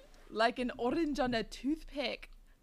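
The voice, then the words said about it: Put-on Scottish accent. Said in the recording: “I apologize to all of our Scottish listeners. ... your accent's gotten better though”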